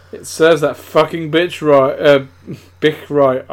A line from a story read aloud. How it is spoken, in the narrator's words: I laughed angrily